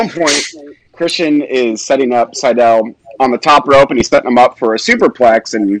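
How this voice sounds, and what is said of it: Usual voice. Nothing is said of it.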